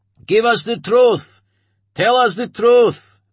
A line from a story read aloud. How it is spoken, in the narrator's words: they shouted back